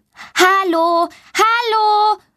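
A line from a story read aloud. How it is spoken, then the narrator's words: Loud calling. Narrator (German): ruft sie laut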